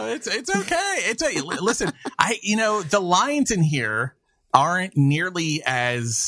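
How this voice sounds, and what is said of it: Usual voice. Nothing is said of it.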